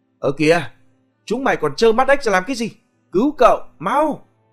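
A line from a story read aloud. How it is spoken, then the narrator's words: Screaming man. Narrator (Vietnamese): Tiếng thét của gã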